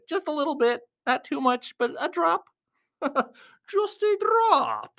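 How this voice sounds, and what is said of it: Slightly funny put-on voice. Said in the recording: “I'm speaking with funny voice action a little bit.”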